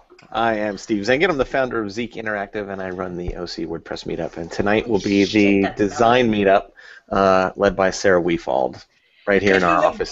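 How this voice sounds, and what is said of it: Smooth, mellow DJ voice. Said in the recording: “Can you be more mellow with that intro? ... It's my DJ voice. ... This is smooth ... It's my 976 voice.”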